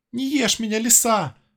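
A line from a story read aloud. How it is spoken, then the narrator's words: Pleading. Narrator (Russian): взмолилась белка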